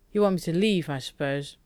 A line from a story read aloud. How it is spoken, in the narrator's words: Shepard snorted